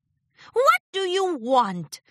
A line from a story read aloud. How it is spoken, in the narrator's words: Discord snapped